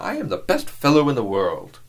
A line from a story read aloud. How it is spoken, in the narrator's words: exclaimed the young man